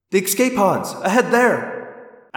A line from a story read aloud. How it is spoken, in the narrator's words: Axe cried